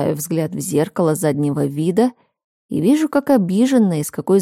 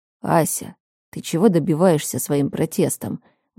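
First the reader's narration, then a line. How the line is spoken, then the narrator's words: Tired sigh. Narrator (Russian): Устало выдыхаю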